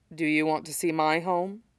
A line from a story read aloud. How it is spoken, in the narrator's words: He murmurs to her